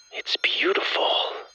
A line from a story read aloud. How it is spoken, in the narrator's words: Lydia whispered